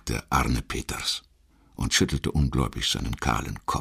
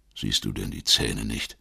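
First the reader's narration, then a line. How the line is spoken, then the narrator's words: Unusually rough voice. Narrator (German): entgegnete Ossel mit ungewöhnlich rauer Stimme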